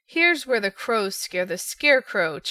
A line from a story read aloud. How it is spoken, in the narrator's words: chuckled the naughty King Crow